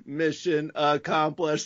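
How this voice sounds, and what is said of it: Robot voice. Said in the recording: “You got the robot voice right”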